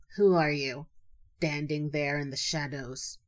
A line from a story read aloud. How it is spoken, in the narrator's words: she said gruffly